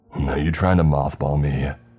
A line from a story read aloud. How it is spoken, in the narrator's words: More growling